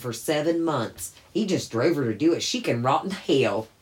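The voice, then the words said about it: Put-on Southern accent. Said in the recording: “my best Southern impression”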